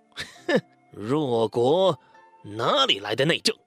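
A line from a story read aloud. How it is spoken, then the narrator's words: Roaring. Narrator (Chinese): 高阳咆哮起来说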